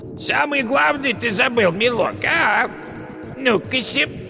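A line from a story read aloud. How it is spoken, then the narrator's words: Falsely thin voice. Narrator (Russian): яга позвала фальшиво тонким голосом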